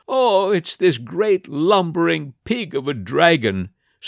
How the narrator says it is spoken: sobbed the boy

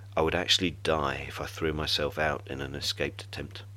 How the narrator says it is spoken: I said quietly

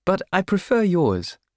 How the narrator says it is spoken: she would laugh

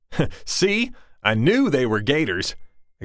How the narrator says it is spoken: exclaimed Dad

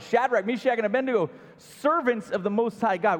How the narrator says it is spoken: Nebuchadnezzar shouted

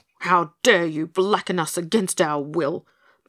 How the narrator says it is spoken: burst out Pigasus furiously

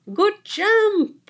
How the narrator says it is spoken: Isabella shouted

